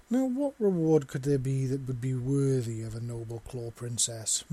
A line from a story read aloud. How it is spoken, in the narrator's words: Visa purred softly in Seven's ear